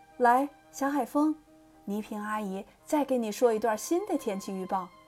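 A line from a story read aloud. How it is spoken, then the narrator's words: Forced cheerfulness. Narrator (Chinese): 我强颜欢笑说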